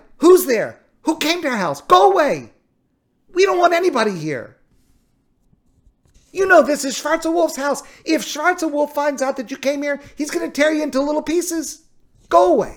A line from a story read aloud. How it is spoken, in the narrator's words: the wife shouting from inside